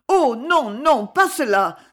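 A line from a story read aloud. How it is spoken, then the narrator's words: Exclaiming. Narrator (French): s'écria Myrtot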